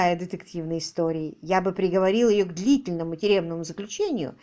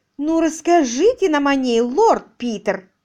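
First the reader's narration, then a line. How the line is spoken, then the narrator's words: Exclaiming woman. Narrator (Russian): воскликнула миссис Димсуорти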